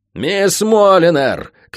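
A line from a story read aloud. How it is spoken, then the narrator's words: Shout. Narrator (Russian): крикнул лорд Спенсер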